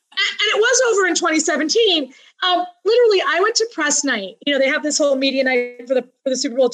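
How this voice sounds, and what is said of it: Usual voice. Nothing is said of it.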